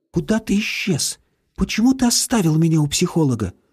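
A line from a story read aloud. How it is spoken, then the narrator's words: Reproachful whisper. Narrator (Russian): С упреком прошептала она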